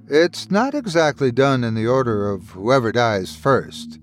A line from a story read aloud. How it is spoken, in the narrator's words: Irvin chuckled